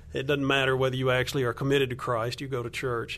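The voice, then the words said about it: Southern American accent. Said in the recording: “I'm from Alabama, if your listeners can't hear my accent. So Southern culture”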